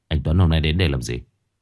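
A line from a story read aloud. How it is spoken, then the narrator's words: Cold. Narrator (Vietnamese): Báo lạnh lùng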